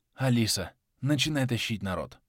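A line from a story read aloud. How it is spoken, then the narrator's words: Whispered. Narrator (Russian): прошептал я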